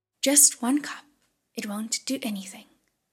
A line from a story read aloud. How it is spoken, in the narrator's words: said